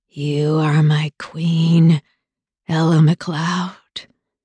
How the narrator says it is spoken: he growled between breaths

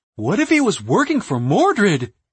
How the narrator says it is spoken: he gasped

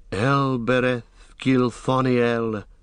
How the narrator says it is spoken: sighed Legolas

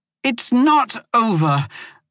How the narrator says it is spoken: Moya shouted after her

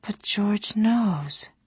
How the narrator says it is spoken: she commented softly

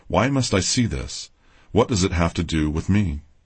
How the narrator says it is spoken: I cried out with all of the power of my being

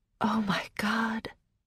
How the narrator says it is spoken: I breathed

